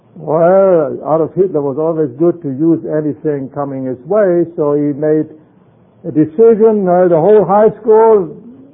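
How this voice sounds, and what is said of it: German accent. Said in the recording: “my accent tells you I was born in Germany”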